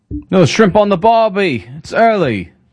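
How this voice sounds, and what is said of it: Poor put-on Australian accent. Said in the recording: “Is that a good Australian accent? ... No, man. That was rude. ... that wasn't one of your better ones.”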